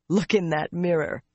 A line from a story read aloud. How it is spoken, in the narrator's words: he laughed